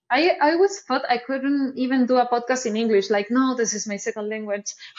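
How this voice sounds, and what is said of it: Strong non-native English accent. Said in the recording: “I have a strong accent”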